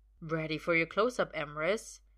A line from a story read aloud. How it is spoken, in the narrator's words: Val says quietly, and his tone sends a shiver down Merlin's spine